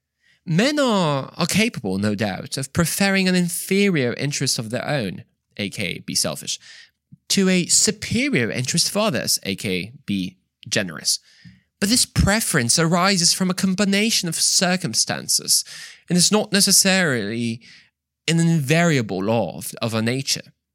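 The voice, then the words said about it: Bad put-on British accent. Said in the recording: “my terrible British accent”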